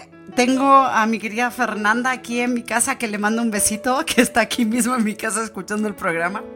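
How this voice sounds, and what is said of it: Spanish with a Chilean-sounding accent. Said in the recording (Spanish): “Claro, el acento está re chileno. ... se me empezó a pegar ya el chileno ... estás hablando muy argentino hoy.”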